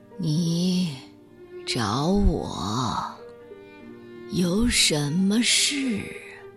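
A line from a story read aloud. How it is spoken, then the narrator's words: Slow question. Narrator (Chinese): 他慢慢的问道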